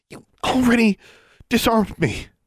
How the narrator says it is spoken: she gasped

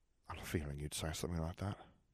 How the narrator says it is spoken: he murmured

